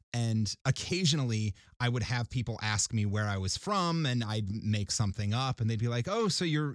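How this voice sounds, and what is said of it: Usual voice. Nothing is said of it.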